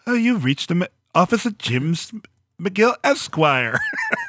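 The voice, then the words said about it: Put-on bad British accent. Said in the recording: “the British, terrible British accent ... That's pretty good. Pretty good impression.”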